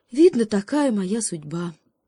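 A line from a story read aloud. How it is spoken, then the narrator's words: Sighing hare. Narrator (Russian): вздохнул заяц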